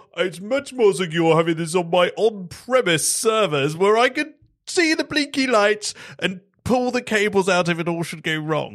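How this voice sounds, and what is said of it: Silly put-on character voice. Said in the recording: “that's my silly voice”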